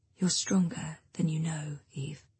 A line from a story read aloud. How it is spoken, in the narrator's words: she whispers